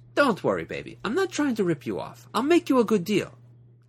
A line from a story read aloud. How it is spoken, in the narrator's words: She laughed at me and said